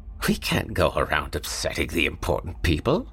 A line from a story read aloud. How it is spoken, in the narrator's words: Madame hissed at him